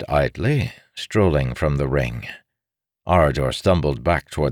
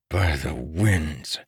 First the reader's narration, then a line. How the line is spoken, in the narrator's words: hissed, with stupefaction